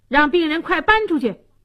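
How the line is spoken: Arrogant yelling. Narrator (Chinese): 六儿狗仗人势，大喊大叫说

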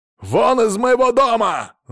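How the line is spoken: Yell. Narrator (Russian): заорал он

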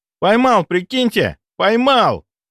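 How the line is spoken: Joyful shout from afar. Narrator (Russian): издали радостно прокричал он

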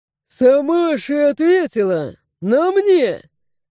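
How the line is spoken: Chuckling. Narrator (Russian): Хохотнул воин

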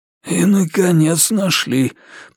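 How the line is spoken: Wheezing. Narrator (Russian): просипел маркиз

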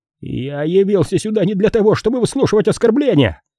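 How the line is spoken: Shrill squeal. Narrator (Russian): взвизгнул Питер Пейнтер

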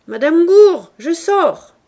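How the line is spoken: Shouted. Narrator (French): cria-t-il en se penchant dans la loge

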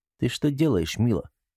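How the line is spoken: Barely audible question. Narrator (Russian): Еле слышно, чтобы не разбудить остальных, спросил он

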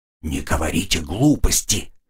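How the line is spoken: Whisper. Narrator (Russian): прошептала Мия

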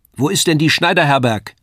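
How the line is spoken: Woman calling across. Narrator (German): rief die Frau zu mir herüber

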